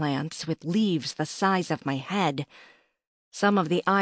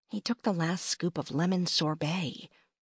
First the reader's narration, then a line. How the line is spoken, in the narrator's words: I muttered